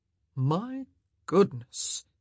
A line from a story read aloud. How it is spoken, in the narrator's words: he drawled